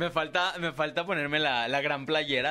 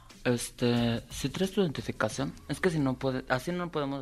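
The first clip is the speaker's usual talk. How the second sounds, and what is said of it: Character voice of a gossipy friend. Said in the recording (Spanish): “hacer la voz de Nayeli ... Nayeli pues es la amiga chismosa”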